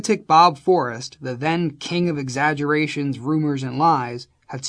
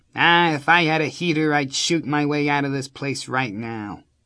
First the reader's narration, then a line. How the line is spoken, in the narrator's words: All I said in a Jimmy Cagney gangster voice was